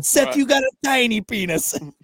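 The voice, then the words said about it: Imitated Jewish Boston accent. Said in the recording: “he's got like a Jewish Boston accent.”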